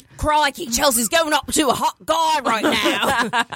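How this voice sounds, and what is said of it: Put-on Australian accent. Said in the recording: “Gonna do it in that Australian accent.”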